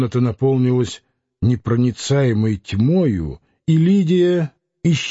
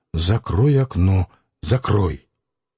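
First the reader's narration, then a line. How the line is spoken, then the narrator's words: Angry whisper. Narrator (Russian): сердитый шепот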